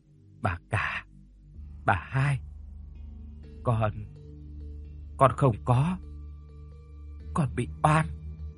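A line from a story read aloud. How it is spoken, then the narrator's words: Faint breathless whisper. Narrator (Vietnamese): Con Thúy bây giờ mới còn thở thoi thóp, nó thều thào nói khẽ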